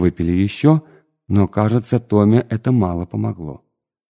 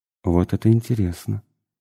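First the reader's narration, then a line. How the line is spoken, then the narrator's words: Muttered. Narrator (Russian): пробормотал я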